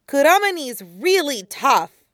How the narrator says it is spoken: Naruto says, more cheerfully than he feels

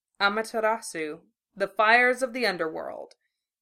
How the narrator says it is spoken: he explained quite calmly

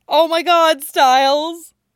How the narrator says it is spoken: Erica begins to laugh hysterically

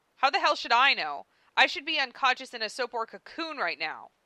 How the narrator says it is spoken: Karkat snapped

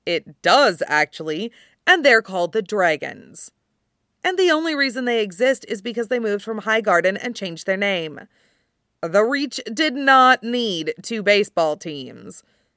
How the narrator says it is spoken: Gendry says dryly

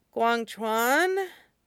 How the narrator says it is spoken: Tong Fan croaks, voice rough from sleep

